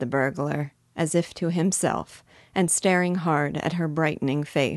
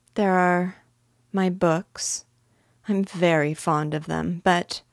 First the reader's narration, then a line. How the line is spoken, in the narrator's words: very slowly and with a deep sigh